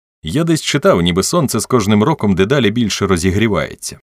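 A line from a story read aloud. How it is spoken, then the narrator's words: Cheerful speech. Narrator (Ukrainian): весело сказав Том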